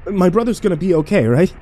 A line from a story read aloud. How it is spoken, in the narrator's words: I begged